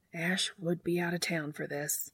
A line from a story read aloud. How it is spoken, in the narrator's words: muttered